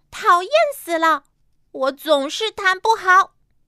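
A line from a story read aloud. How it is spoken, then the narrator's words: Angry loud yell. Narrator (Chinese): 小丽气愤地大叫起来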